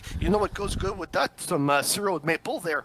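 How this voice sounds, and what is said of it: French Canadian hillbilly accent. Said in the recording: “I was trying to do a French Canadian hillbilly accent”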